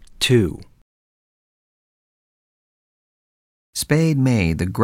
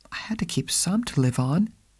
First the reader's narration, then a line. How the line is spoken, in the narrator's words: she explained meekly